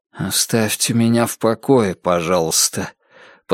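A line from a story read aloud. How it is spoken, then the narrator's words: Quiet, soft. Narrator (Russian): тихонько проговорил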